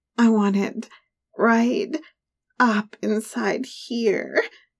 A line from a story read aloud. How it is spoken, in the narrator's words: the cursed MILF added, moaning